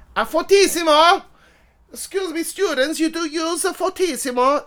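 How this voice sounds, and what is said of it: Put-on Italian accent. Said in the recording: “I say the words in my best Italian accent.”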